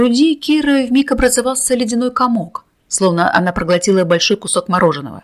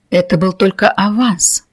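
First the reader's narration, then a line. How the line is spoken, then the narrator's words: Trance-like whisper. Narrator (Russian): прошептала, словно в трансе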